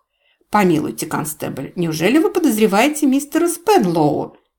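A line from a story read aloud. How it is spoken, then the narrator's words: Exclamation. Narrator (Russian): воскликнула мисс Марпл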